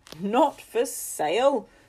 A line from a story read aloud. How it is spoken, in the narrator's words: said Henry's father with a dry laugh